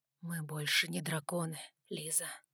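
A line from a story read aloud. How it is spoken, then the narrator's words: Whisper. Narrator (Russian): прошептал он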